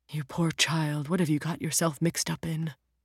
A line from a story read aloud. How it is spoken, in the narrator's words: His voice almost gave out as he whispered